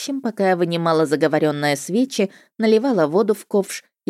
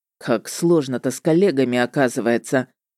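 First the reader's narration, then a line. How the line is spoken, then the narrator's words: Muttered under breath. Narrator (Russian): под нос себе буркнул он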